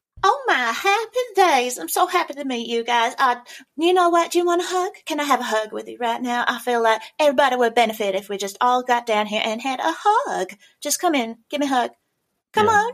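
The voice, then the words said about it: Cheerful Southern Belle accent. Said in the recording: “Southern drawl ... that was my favourite accent because one of my favourite characters I ever did had that accent ... She was all happy ... That sort of Southern Belle”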